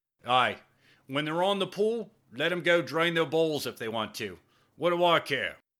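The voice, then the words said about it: Thick English accent. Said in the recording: “in his thick English accent”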